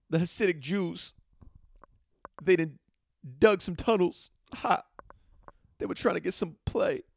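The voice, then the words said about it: New York accent, rapping style. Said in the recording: “That was my impression of someone in New York describing what happened this week, but also rapping and freestyling.”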